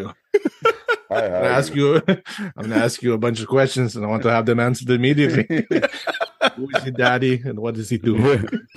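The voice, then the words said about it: Arnold Schwarzenegger impression. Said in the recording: “What would Arnold Schwarzenegger say on a date? ... you're supposed to do your accent”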